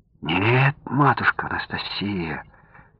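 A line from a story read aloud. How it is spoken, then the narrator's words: Quiet, serious child's voice. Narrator (Russian): тихо, но как-то очень серьезно продолжал мальчик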